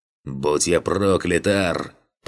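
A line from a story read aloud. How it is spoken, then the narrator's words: Deep bass voice. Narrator (Russian): пробасил он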